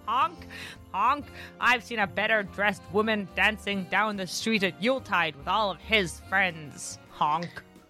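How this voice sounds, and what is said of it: Honking goose voice, Canadian accent. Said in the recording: “Did your accent just acknowledge the migratory nature of geese ... a North American goose ... I channeled a possessed goose and it came out as if it was coming from Toronto.”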